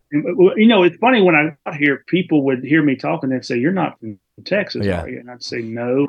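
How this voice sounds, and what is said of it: Southern Mississippi accent. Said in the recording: “you talk funny ... South Mississippi accent”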